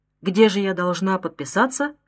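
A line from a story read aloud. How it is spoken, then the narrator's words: Plain. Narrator (Russian): спросила Клавдия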